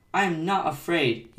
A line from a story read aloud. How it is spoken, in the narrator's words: he cried